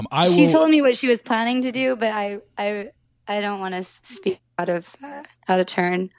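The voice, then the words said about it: Hoarse, strained voice. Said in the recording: “I'm like losing my voice from all those meetings I've been doing.”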